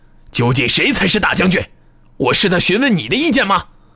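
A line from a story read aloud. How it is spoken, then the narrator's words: Sudden roar. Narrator (Chinese): 耶律忽突树突然咆哮道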